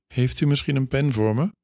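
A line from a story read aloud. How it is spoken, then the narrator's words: Thin small voice. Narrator (Dutch): vroeg hij met een dun stemmetje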